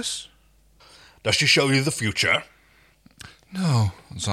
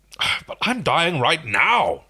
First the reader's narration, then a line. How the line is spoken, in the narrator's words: Rigel spat